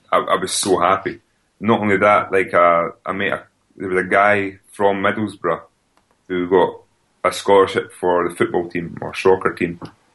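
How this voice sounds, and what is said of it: Scottish accent. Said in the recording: “his parents were from Scotland, so we became friends straight away ... obviously I've got my accent ... how do you think that you managed to keep hold of your accent”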